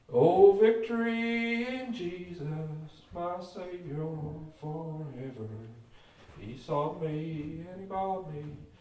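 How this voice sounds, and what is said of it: Full diaphragm singing voice. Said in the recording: “Put on my diaphragm singing voice”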